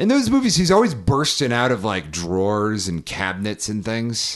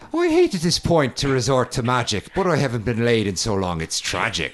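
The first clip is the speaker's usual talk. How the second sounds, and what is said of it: Leprechaun character voice, Irish accent. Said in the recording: “you could just speak like that. Like Warwick Davis in the movie Leprechaun ... You have such a sexy accent.”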